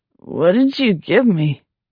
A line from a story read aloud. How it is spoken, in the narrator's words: Already his speech sounded thick and slurred as his tongue swelled inside his mouth